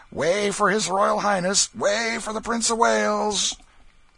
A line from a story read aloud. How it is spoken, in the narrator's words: the jeering crowd hooting him and shouting